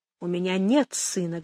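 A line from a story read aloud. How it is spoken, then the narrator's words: Plain. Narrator (Russian): говорит он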